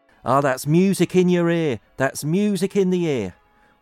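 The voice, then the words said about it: Put-on Norfolk accent. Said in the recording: “I'll have a go at the Norfolk accent.”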